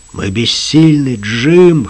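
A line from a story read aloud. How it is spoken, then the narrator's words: Hoarse. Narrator (Russian): хрипло сказал он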